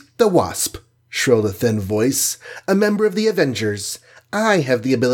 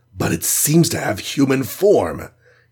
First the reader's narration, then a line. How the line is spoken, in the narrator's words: he gasped